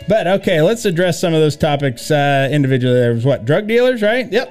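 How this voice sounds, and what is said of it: Usual voice. Nothing is said of it.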